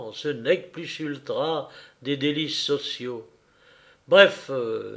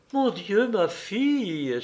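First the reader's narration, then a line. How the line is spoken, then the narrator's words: Exclaiming. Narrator (French): s'écria Zemrud Kanoun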